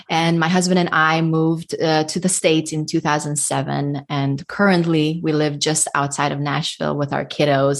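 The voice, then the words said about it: Hungarian-accented English. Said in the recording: “people by now notice my accent ... because I am ethnic Hungarian ... your accent is beautiful ... it's definitely not a Southern accent or a Northern.”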